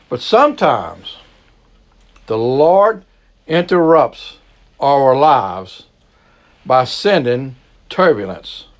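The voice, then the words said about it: Cajun accent. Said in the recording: “I do have a weird accent. I'm an old Cajun boy”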